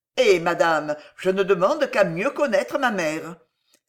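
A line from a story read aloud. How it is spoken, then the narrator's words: Bitter exclamation. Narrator (French): s'écria Charles avec amertume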